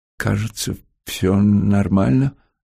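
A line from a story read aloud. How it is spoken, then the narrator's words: Uncertain. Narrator (Russian): неуверенно сказал Антон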